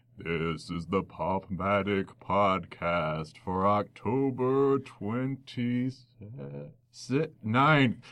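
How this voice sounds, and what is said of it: Spooky horror voice. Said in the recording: “in a spooky horror voice”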